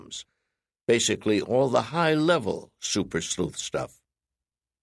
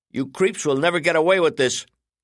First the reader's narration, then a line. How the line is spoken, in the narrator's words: Sean Bailey hollered